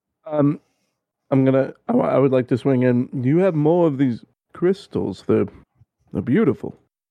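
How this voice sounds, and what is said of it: Badly done put-on accent. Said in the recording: “What the fuck was that accent? That was something entirely wrong.”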